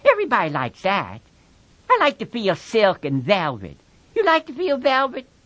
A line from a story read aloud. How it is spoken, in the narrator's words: Lenny chuckled with pleasure